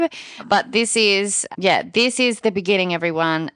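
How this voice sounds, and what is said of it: Excited voice. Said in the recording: “hear the excitement in my voice”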